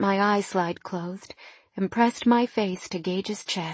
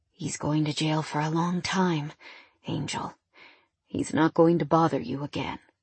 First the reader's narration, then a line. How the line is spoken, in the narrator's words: In a low voice, Gage said